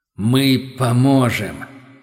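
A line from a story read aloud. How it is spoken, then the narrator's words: Booming voice inside head. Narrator (Russian): прогудел ответ в черепе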